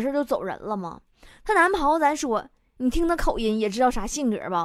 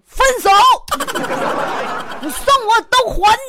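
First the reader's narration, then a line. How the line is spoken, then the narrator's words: Angry yelling. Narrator (Chinese): 一生气，嗷嗷喊道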